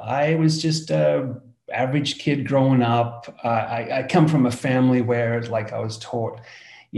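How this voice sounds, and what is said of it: Australian accent. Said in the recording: “as you can hear from my accent, I come from Australia, down under”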